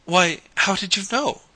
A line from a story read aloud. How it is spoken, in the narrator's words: gasped Mary Louise